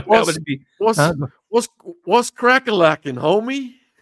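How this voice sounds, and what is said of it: Put-on Ebonics dialect. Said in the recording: “I'd like to hear you speak, in Ebonics at some point.”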